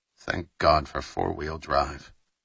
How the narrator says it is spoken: Wilkes muttered further

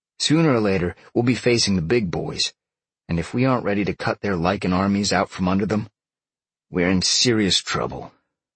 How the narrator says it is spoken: Sean said with a slight growl

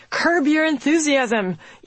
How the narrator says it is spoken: Easterling called out

